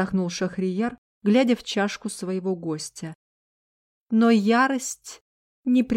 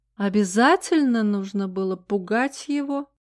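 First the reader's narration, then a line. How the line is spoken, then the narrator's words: Tender purring voice. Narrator (Russian): промурлыкал нежный голос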